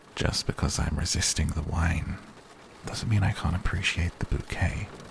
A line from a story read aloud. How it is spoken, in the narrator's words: whispered